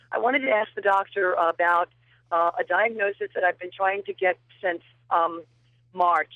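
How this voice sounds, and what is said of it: Hoarse voice. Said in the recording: “excuse my hoarseness”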